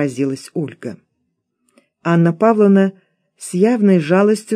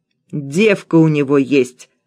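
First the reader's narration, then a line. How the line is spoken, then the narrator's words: Old woman barking. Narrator (Russian): рявкнула старуха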